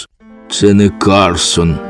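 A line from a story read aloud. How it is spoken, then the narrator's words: Hollow muffled voice. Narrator (Ukrainian): озвався Карсон глухим голосом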